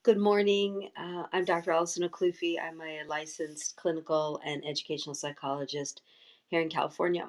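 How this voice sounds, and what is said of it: Low, tired morning voice. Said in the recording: “My voice is low. It was a late night last night, so I'm still waking up”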